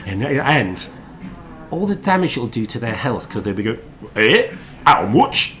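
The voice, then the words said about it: Put-on Leeds accent. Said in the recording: “That's a great accent... Leeds. It might actually be your first okay one... It was almost Leeds.”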